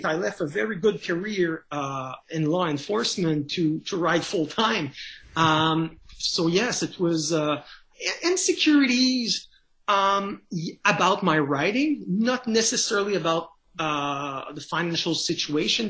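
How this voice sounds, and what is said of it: French Canadian accent. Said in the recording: “as you can tell by my accent, I'm a French Canadian”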